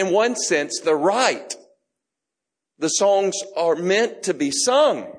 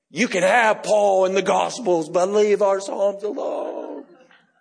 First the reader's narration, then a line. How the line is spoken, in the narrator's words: I could just hear him growling like